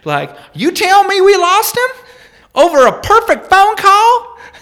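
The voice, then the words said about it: Put-on Southern US accent. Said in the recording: “for comedic purposes here, going to use a Southern accent”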